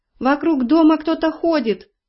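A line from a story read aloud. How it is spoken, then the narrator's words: Fox cub wailing. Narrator (Russian): завопил лисенок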